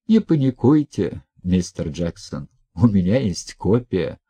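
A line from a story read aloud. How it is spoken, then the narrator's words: Calm. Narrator (Russian): спокойно сказала Хельга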